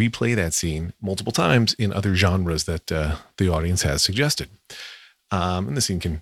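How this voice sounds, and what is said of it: Usual voice. Nothing is said of it.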